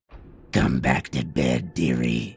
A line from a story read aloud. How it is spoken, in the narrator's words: she says in a too deep voice